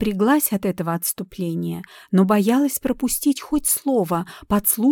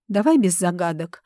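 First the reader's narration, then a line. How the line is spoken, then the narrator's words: Irritated interruption. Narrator (Russian): раздраженно прервал Люк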